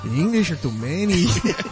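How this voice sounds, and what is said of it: Put-on Mexican accent. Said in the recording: “Was that like a Mexican accent? ... Yeah, that was a Mexican.”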